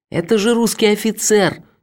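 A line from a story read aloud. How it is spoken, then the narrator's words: Indignant shouting. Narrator (Russian): возмущенно кричал Шарль, но французская речь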